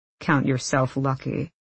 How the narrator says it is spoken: Kaz said grimly

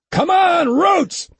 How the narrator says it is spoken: he yelled

